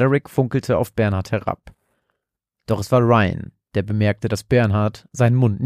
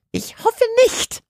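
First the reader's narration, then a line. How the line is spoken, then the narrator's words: Quieter hiss. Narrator (German): zischte die Stimme jetzt etwas leiser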